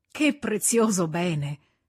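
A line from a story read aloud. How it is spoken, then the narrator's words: Sweet sigh. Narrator (Italian): disse con un dolce sospiro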